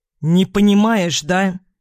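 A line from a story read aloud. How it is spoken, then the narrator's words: Irritated question. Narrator (Russian): Раздраженно спрашивает он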